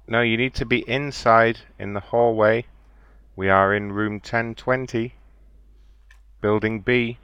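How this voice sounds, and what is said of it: Speaks English with an accent. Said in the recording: “it's my accent”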